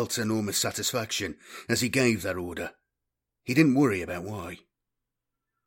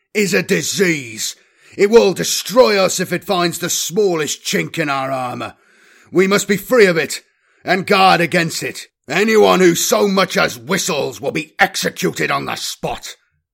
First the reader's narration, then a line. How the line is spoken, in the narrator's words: thundered